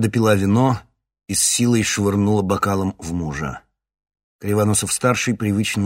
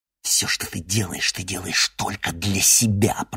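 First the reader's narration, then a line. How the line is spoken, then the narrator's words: Hissing. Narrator (Russian): прошипела Луиза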